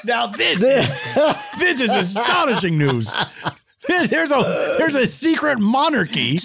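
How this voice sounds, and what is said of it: Excited yelling. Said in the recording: “I'm sorry for yelling. I was so excited.”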